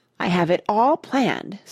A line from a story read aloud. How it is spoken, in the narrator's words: said Mona excitedly